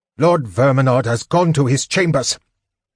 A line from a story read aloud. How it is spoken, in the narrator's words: Pyros called out, irritated at the interruption